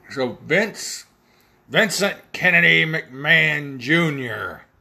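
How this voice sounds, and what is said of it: Imitates another person's voice. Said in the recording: “I do a terrible Vince McMahon impression, but I think I just sounded more like Vince than Vince.”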